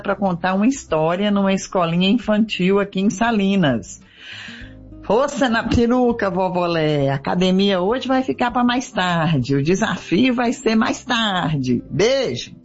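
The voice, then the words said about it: Minas Gerais Brazilian accent. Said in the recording (Portuguese): “A ... de Minas com esse sotaque delicioso”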